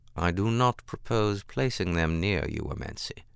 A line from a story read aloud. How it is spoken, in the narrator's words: he said calmly